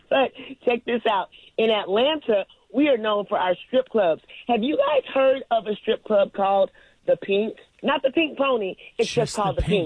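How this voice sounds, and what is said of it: Slightly congested, stuffy voice. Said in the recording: “if I sound a little congested, oh my gosh, yeah, this early morning pollen is getting me”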